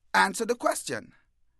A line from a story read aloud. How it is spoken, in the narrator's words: He's shouting